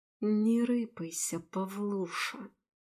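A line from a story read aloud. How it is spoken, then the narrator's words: Hissed. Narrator (Russian): прошипела я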